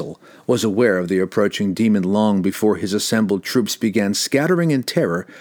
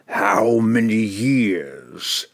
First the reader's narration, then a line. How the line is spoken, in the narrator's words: it bellowed victoriously